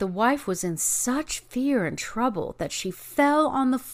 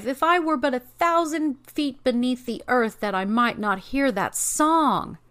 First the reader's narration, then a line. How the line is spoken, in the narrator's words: cried the wife